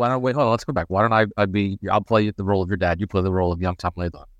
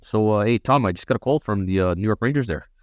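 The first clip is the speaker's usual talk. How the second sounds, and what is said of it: Put-on Canadian accent. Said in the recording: “Your dad's probably got a Canadian accent, right?”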